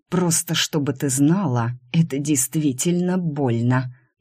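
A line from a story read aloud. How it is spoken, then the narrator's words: Hiss. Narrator (Russian): прошипел Ван Райен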